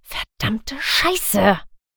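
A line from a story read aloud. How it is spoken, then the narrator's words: Whispering. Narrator (German): flüsterte ich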